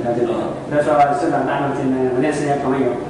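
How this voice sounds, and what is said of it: Shaanxi-accented Mandarin. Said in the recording (Chinese): “他那一口陕西口音比什么都能说明问题”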